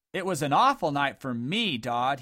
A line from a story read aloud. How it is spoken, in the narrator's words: he yelled bitterly